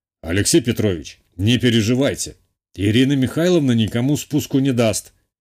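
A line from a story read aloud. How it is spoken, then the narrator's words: Said with a snort, by a club owner. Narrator (Russian): хмыкнул хозяин клуба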